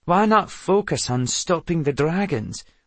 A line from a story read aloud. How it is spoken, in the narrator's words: Lachlan asked